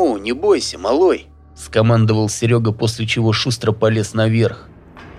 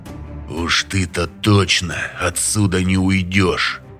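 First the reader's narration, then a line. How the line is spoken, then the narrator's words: Hissed. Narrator (Russian): прошипел он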